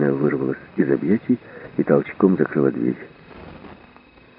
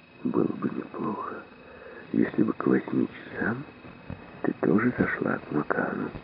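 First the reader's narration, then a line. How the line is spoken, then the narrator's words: Whisper into ear. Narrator (Russian): прошептал прямо в ухо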